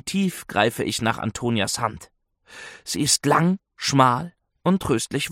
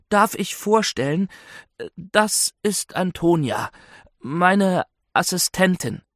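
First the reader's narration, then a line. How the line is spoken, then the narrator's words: Slightly trembling voice. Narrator (German): erkläre ich mit leicht zittriger Stimme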